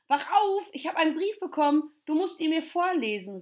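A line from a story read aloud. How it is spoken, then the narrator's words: Call. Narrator (German): rief er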